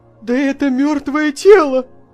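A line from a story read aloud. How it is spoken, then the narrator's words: Startled cry. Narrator (Russian): вскрикнул он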